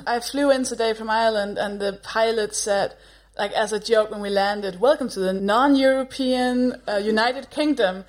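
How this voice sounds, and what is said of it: Danish accent. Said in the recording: “if you've got a Danish accent”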